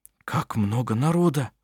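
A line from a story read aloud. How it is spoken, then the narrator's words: Whispered. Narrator (Russian): прошептал Бенгт Эдвард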